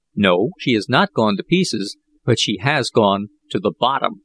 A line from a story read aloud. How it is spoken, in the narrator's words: replied Jack